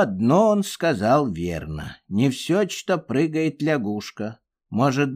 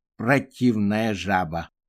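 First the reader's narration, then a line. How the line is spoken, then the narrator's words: Shivering mumble. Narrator (Russian): промямлил точечка, трясясь от холода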